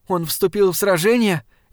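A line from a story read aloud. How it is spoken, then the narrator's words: Frightened question. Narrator (Russian): испуганно спросила Варшева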